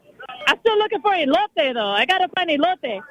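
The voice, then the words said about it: Strong accent on a Spanish word. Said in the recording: “she brought the accent strong there.”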